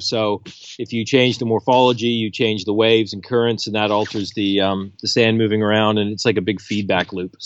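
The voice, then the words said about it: Canadian accent. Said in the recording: “your accent gives you away. You're originally from Canada.”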